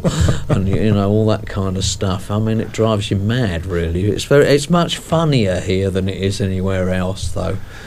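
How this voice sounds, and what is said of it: Speaks with a noticeable accent. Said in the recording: “They love that accent.”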